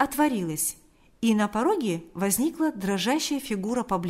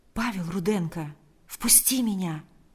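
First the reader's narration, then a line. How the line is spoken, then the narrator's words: Very quiet. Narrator (Russian): ответил Павел очень тихо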